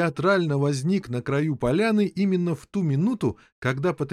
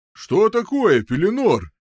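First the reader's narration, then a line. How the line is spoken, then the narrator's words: Shouting. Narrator (Russian): прокричал сэр Эктор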